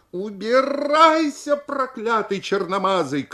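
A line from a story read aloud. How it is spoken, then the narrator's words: Indignant child shouting. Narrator (Russian): кричал он со всем негодованием 11-летнего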